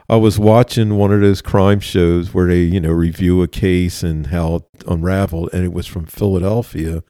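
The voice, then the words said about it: Philadelphia accent. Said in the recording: “I didn't know I had a Philly accent until I moved here ... you got that Philly accent ... we can really hear it when like you're like fired up”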